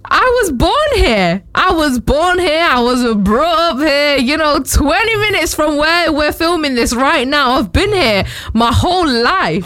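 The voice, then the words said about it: Distinctive Manchester Northern English accent. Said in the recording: “you obviously have a very distinctive Manchester Northern accent”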